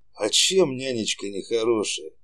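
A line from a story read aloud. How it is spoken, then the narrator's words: Gentle question. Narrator (Russian): ласково спросил Саша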